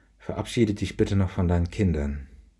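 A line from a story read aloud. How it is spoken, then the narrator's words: Murmuring. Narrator (German): Sie murmelte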